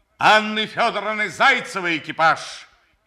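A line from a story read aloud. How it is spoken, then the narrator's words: Shouting. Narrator (Russian): закричал он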